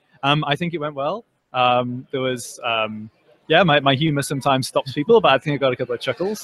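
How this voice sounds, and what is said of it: Northern English accent. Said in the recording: “you have that accent ... I'm from England ... I'm from the north of England. I'm from a place called York.”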